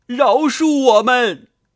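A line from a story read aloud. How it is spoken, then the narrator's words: Crying for mercy. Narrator (Chinese): 两三个土兵叫饶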